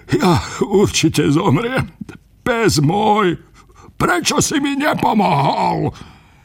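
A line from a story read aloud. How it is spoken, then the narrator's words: Lamenting. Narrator (Slovak): nariekal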